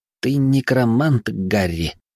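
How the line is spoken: Muttering boy. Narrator (Russian): пробормотал мальчишка

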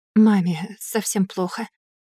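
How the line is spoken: Quiet young woman. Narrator (Russian): так же тихо ответила девушка

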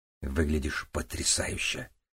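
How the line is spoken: Whisper. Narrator (Russian): прошептал он

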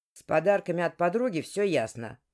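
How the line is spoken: Grumbling. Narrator (Russian): проворчал Арчи

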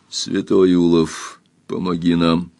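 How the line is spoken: Quiet. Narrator (Russian): тихо сказал Лавранс

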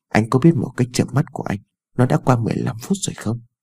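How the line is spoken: Soft, sulky. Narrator (Vietnamese): Ái Dương khẽ dỗi hờn

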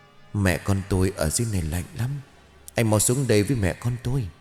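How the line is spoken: Eerie whisper. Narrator (Vietnamese): Giọng của Hạnh Nguyệt bắt đầu thì thào vang lên

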